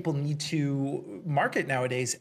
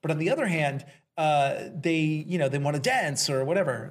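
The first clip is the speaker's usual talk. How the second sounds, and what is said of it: Slips into a slight accent. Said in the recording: “It was a little accent there.”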